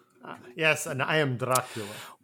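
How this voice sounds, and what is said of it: Dracula-style vampire accent. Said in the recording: “it's a better accent than Nick Cage used in the movie Renfield”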